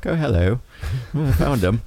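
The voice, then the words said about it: Put-on British accent. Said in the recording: “I get a British accent apparently when I get startled”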